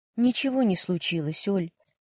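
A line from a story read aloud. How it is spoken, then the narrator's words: Quiet reply. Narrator (Russian): тихо ответила Варя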